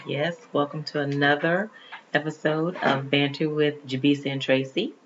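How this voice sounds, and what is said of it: Low, sultry speaking voice. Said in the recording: “sexy voice ... How low she's speaking.”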